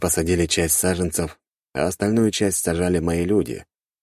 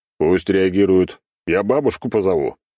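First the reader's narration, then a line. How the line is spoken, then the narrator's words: Bursting out laughing. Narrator (Russian): расхохотался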